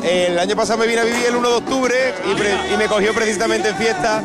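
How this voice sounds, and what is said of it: Spanish accent from Cádiz. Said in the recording (Spanish): “¿Por qué ese acento? ... Yo soy de Cádiz, un pueblo de Cádiz.”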